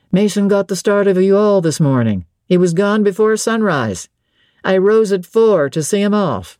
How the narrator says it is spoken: I heard him in the yard saying cheerfully

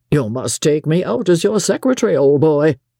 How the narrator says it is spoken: Captain McMurdo said with a laugh

